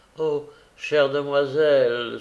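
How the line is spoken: Young girl exclaiming. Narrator (French): s'écria la jeune fille

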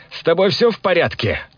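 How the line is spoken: Loud shout again. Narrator (Russian): вновь громко выкрикнул

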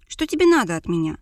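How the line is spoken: Irritated bark. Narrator (Russian): раздраженно рявкнула

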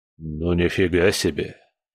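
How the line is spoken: Wary mutter. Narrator (Russian): Пробормотал он с опаской

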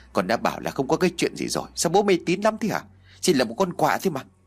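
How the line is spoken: Angry snapping. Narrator (Vietnamese): Chứng kiến sự cuồng trí của bố mình, Chí sôi máu, gã liền gắt

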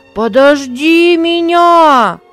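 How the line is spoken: Shouted. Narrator (Russian): закричал Авий

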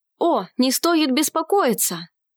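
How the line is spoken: Exclaimed. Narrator (Russian): воскликнул щебневый воин

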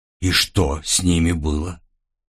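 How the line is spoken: Quiet, fearful question. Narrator (Russian): тихо спросила Эрса, боясь в ответ услышать вполне простой и очевидный ответ

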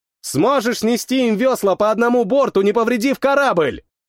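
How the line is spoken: Shouted. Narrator (Russian): Крикнул

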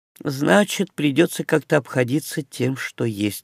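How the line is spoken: Unexpectedly calm summary. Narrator (Russian): неожиданно спокойно подвела итог принцесса

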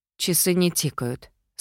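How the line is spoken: Calm. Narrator (Russian): спокойно сказала я

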